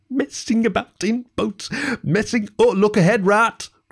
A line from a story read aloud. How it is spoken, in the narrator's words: cried the mole suddenly